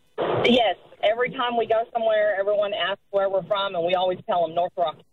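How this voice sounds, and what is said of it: Noticeable non-local accent. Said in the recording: “do you get asked a lot about your accent living here in central Queensland?”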